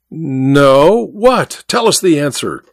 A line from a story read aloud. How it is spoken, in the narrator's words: said someone with a laugh